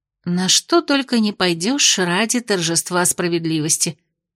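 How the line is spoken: Muttering under breath. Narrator (Russian): пробормотала она себе под нос

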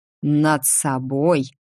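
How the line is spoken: Growling man. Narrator (Russian): прорычал мужчина

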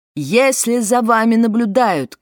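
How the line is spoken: Shouting through megaphone. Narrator (Russian): кричала в мегафон

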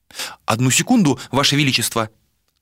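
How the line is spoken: Hurried speech. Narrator (Russian): Торопливо проговорили

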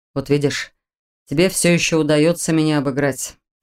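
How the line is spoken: Displeased grumble. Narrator (Russian): проворчал генерал, явно недовольный проигрышем

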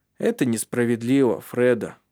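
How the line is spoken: Calm remark. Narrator (Russian): спокойно заметил Маттиас

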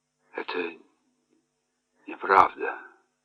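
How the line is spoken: Stammering, very quiet mumble. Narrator (Russian): пробормотал, запинаясь, и очень тихо

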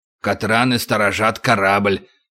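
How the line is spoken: Muttered. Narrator (Russian): пробормотал крючок

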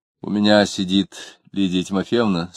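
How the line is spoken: Plain. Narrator (Russian): сказала она

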